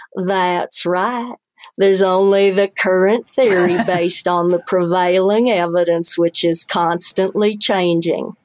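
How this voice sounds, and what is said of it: Slow put-on Southern accent. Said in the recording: “said in a slow Southern accent”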